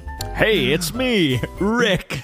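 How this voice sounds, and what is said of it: Imitates another person's voice. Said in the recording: “That's my impression.”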